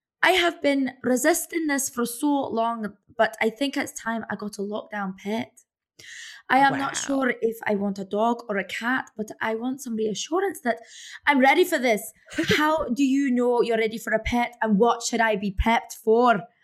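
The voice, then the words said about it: Put-on Scottish accent. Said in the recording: “I'm just going to do it Scottish for her ... I want to see the Scottish accent.”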